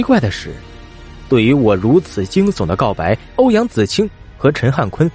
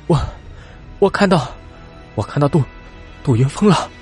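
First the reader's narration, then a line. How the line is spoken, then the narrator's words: Panting, stammering. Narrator (Chinese): 一边大口的喘着粗气，一边结结巴巴的对着欧阳子清和陈汉坤道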